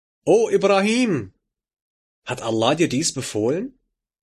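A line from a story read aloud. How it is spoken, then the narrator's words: Woman calling after pause. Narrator (German): Die Frau hält für einen Augenblick inne und ruft nach kurzer Überlegung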